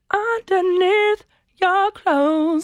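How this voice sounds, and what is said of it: Sung imitation of a pop singer. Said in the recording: “I could do a really good Shakira impression of this song. ... Yeah, nailed it.”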